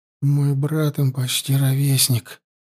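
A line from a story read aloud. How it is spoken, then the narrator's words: Muttering. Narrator (Russian): пробормотала, рассмотрев, наконец, убитых подростков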